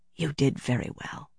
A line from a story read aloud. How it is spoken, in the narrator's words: she murmured